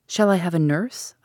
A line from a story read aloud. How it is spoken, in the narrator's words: I asked